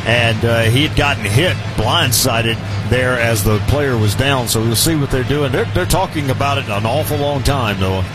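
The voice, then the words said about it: Southern American accent. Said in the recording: “Don't tell me I'm losing my southern accent ... No, you'll never lose that.”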